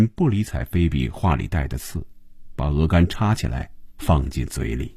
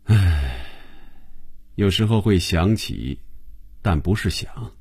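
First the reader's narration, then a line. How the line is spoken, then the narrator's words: Flat calm reply. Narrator (Chinese): 红军淡淡的回答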